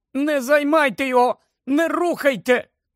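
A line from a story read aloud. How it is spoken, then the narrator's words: Exclaimed. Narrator (Ukrainian): Герміона вигукнула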